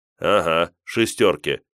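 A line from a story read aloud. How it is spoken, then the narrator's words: Skeptical grumble. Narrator (Russian): скептически проворчал я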